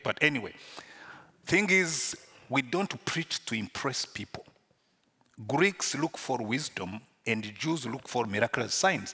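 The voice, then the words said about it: Rwandan-accented English. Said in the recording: “I speak English with an accent ... when you speak English with a Rwandan accent”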